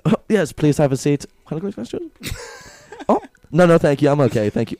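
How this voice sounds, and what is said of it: Fast put-on German accent. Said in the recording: “say really fast in the German accent”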